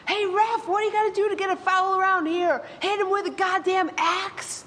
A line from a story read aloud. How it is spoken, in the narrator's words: he screams